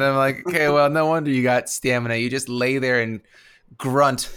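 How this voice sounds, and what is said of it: Usual voice. Nothing is said of it.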